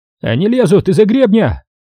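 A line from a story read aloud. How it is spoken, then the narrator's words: Breathless excited yelling. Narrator (Russian): Захлебываясь от возбуждения, орал Кравченко в трубку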